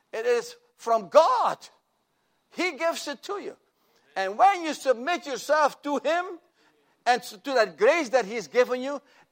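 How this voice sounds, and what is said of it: Speaks with a noticeable foreign accent. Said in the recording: “I have to be careful sometimes with my accent. ... Somebody might have understood pitiful.”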